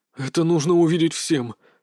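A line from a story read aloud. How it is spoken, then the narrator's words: Rasping hoarse voice. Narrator (Russian): сказал он хриплым голосом, будто проглотил кусок наждачной бумаги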